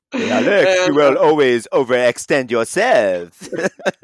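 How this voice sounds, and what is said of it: Exaggerated put-on French accent. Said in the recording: “As much as I like to joke around about his accent, he doesn't have that French of an accent. ... you're pretending like I'm any good at accents.”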